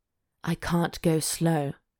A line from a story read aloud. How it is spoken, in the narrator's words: he grunted